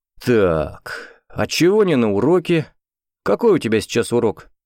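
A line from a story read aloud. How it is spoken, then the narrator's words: Menacing question. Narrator (Russian): вопросил он, грозно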